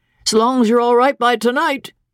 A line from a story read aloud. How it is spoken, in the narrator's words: he said cheerfully